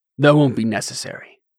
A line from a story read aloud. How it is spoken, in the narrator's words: Delin said